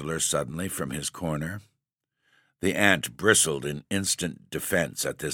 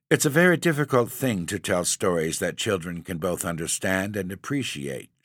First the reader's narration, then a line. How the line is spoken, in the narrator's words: she said stiffly